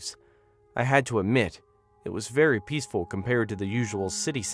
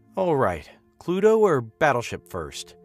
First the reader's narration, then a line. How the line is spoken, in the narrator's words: I groaned outwardly